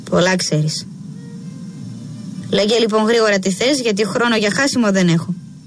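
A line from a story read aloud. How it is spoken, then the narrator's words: Curt, clipped. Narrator (Greek): της λέει κοφτά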